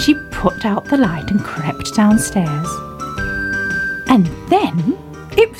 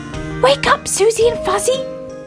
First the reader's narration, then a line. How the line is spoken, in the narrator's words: he cried